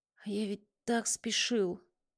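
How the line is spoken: Whisper. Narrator (Russian): прошептал

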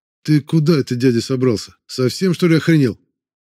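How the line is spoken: Sharp shout. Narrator (Russian): Воронцов на меня прикрикнул

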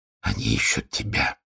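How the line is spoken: Barely audible. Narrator (Russian): сказал он чуть слышно

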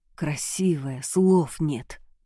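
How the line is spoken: Whisper. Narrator (Russian): прошептал

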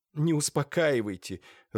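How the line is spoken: Sobbing, distraught. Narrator (Russian): разрыдалась несчастная

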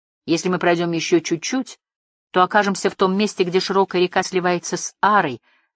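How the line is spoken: Plain. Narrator (Russian): сказал Барда

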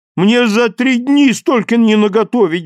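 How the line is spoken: Pleading. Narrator (Russian): взмолился

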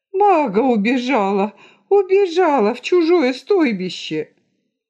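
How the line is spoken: Shouting while straining to rise. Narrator (Russian): Пытаясь подняться на носилках, безногая женщина закричала

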